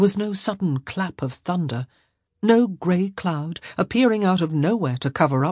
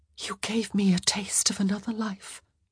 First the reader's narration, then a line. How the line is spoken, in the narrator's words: she whispered